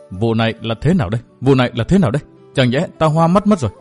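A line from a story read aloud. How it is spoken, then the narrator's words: Shocked stammering. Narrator (Vietnamese): Trác Mộ Thu đầy vẻ kinh dị, miệng lắp bắp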